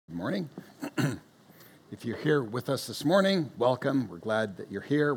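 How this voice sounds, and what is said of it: Subdued, strained voice. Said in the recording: “I'm going to squeak in my subdued voice ... patiently endure the voice”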